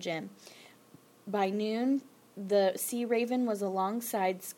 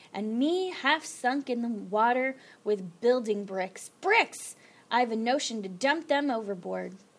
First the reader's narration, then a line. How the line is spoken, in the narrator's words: roared Captain Swain